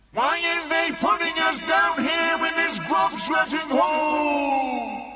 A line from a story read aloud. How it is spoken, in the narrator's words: they shouted at the BFG